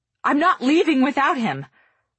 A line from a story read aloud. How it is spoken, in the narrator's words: shout for the second time today